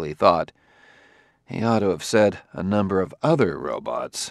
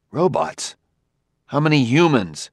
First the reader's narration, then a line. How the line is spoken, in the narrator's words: He cried